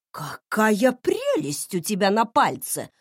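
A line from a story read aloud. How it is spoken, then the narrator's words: Exclamation. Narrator (Russian): воскликнула Клементина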